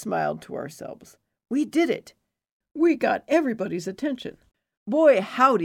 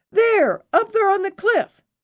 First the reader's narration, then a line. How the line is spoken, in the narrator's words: we heard voices yell